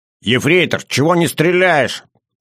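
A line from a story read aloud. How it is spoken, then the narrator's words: Barking shout. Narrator (Russian): рявкнул Илья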